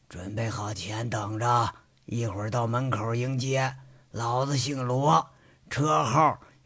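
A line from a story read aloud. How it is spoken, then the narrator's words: Cold voice over phone. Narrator (Chinese): 电话通了，却是冷冷的传来了声音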